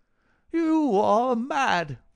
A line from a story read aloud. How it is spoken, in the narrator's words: he cried